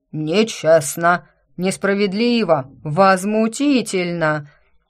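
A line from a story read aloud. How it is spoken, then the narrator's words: Crowd howling. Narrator (Russian): Взвыла на все лады толпа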